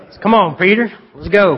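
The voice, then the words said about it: Texas accent. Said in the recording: “that was kind of a Texas accent. I don't know if it was a Texas angel or not”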